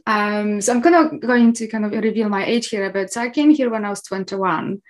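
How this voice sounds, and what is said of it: Polish accent with Scottish tinge. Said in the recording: “I'm Polish, as you can hear probably in my accent. However, you can probably also hear some Scottish in my accent too”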